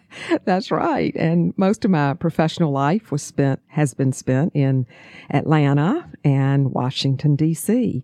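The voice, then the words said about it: Southern US accent. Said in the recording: “my accent will give me away ... we hear that Southern belle”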